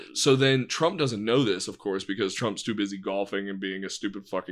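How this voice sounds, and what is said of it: Usual voice. Nothing is said of it.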